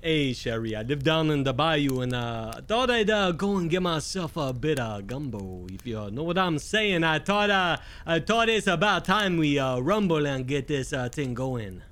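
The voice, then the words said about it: Put-on Cajun swamp accent. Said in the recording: “a Cajun artificer. It was like a swamp accent ... Like a bayou? ... I love that voice. ... that's an accent. That's not as much of a voice as an accent”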